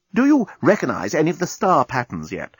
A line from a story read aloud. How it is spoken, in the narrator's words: asked anxiously